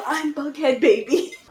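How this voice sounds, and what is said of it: Said very quietly. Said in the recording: “She said that so quietly.”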